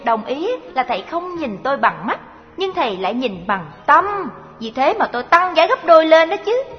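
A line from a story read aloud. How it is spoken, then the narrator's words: Smiling girl. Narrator (Vietnamese): Cô gái mỉm cười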